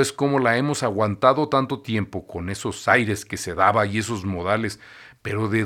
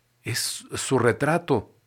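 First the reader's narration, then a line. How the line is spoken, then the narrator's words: Whisper. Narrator (Spanish): dijo en un susurro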